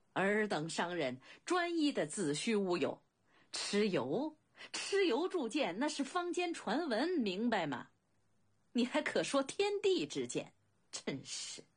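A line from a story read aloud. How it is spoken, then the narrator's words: Hearty laughter. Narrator (Chinese): 公子昂不禁哈哈大笑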